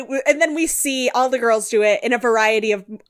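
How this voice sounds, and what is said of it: Usual voice. Nothing is said of it.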